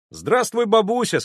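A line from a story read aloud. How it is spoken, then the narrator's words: Loud, cheerful. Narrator (Russian): сказал я громким бодрым голосом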